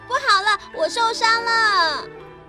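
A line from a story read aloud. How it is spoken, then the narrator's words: Panicked shouting child. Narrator (Chinese): 小豆豆冲进来喊着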